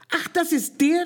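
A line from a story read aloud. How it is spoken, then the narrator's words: Shouted. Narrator (German): rief Traumjörge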